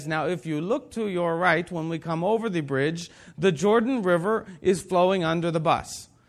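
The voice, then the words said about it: Heavy Hebrew-accented imitated voice. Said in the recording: “in that heavy Hebraic accent”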